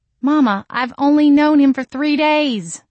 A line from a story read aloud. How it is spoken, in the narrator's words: I cried